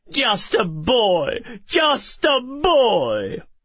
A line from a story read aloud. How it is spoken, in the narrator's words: Call said mockingly